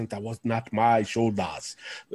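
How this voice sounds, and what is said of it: Imitating wrestler's accent. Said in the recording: “in his accent,”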